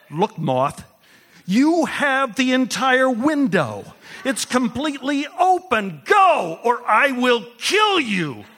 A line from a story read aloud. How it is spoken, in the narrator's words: yelled